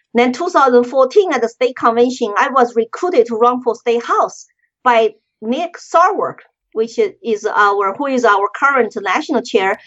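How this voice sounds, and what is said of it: Non-native English accent. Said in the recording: “I still don't speak good English. I still have accent.”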